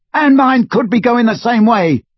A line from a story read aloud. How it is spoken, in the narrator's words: yelled Ron